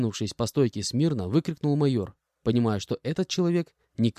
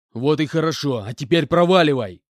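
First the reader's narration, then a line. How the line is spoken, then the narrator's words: Shouted out. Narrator (Russian): выкрикнул Иванович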